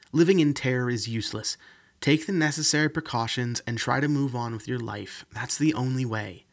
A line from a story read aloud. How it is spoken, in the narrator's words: Amanda snapped